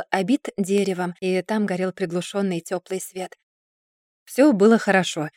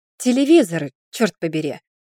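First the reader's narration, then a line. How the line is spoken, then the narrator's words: Exclaimed. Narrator (Russian): воскликнула она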